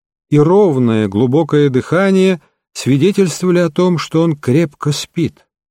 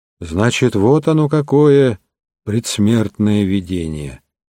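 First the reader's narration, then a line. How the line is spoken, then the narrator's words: Muttered. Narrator (Russian): пробормотал он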